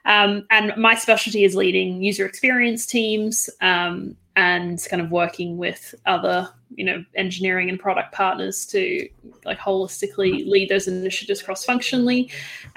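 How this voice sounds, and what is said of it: Australian accent. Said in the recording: “Probably detect Australian accent here.”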